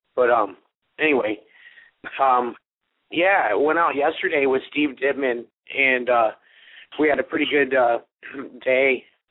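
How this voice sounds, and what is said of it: Sick, rough voice. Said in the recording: “pardon my voice,... I'm down with the sickness there.”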